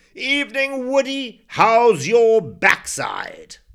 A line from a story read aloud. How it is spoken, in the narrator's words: roared